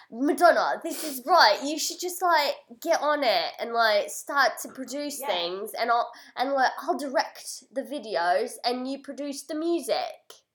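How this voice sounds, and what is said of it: Put-on British accent, weak imitation. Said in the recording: “He's, like, British, right? ... Good imitation. ... That's not a good... ... Way more, like, cockney, like white trashy...”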